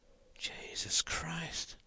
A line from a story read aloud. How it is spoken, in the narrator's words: whispered Al